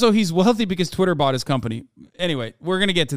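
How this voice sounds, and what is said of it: Usual voice. Nothing is said of it.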